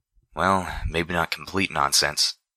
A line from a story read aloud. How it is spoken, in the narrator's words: I muttered under my breath